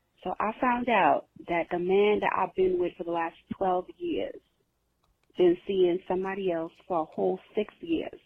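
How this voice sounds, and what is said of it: New York accent. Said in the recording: “I love this New York-ass accent.”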